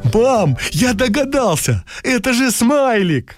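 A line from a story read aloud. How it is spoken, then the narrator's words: Joyful child exclaiming. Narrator (Russian): Кирюша радостно воскликнул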